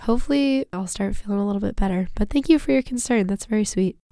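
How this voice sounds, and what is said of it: Voice sounds a little off, sick. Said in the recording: “you're sounding a little bit off ... I'm just a little bit under the weather this week. I apologize for my voice”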